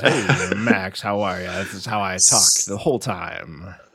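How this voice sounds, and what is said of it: Exaggerated podcast-host voice. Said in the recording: “the new podcast voice that you're using... That new podcast voice.”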